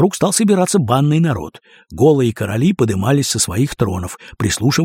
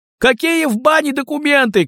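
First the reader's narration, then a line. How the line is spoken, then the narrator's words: Shouting. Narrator (Russian): крикнул кто-то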